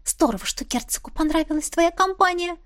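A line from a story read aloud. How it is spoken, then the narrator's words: Whisper. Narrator (Russian): шепнула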